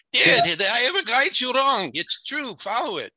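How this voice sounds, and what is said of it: Light put-on Jewish accent. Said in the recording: “He'll talk with like a little Jewish accent.”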